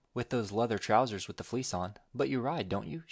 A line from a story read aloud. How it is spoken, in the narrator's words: she added quickly